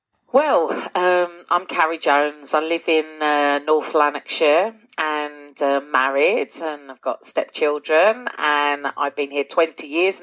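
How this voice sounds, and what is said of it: English London accent. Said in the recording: “as you can tell from my accent, I'm not originally from Scotland ... I am from London originally and then moved to Essex”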